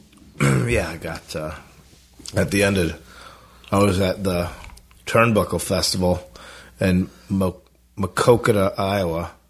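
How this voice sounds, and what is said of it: Sick voice with mouth sounds. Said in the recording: “sorry for my voice. I have a cough drop in my mouth... I got a lot of mouth sounds happening because I'm ill.”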